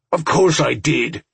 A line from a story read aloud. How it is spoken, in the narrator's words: Franson said angrily